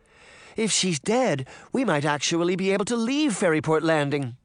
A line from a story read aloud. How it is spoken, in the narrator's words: Beauty cried, unable to hide her excitement